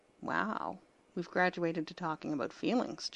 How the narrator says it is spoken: John murmured

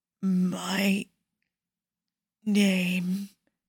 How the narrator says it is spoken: he rasps, the words rolling off his tongue with startling ease

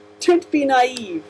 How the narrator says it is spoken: the Master laughed

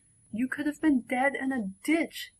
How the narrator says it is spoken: her sister shrieks

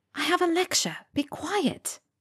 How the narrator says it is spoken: she whispered

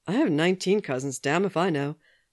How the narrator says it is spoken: Sam said, laughing

